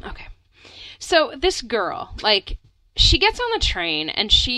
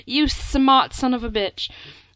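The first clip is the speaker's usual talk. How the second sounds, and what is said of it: Put-on English accent. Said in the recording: “I don't know why I'm doing an English accent, but I kind of like it.”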